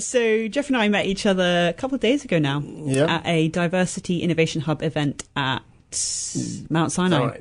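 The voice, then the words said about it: British Oxford accent. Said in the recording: “I am obviously from the UK, as you can hear from my accent, specifically Oxford... I definitely have an Oxford accent”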